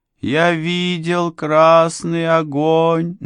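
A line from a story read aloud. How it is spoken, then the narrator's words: Sing-song chanting. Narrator (Russian): нараспев продолжал он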